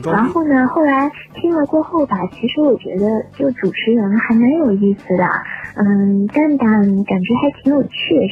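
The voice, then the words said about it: Southern Chinese accent. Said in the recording (Chinese): “听我口音也是，我是南方人”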